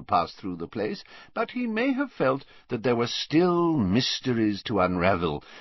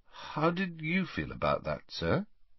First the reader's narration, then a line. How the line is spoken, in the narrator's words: asked Harry hesitantly